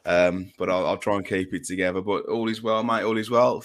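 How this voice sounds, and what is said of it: Hoarse, fading voice. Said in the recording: “I'm losing my voice a bit, so apologies if I start to sound a little bit like Sean Dyche”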